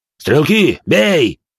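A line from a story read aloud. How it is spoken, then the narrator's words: Captain barking an order. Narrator (Russian): рявкнул капитан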